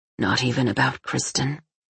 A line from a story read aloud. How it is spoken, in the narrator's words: he whispered